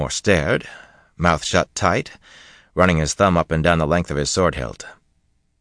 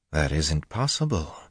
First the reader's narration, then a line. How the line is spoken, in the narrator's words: Dashiva muttered into the silence, but nearly under his breath